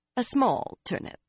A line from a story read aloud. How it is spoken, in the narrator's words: Karuna told her in a dry tone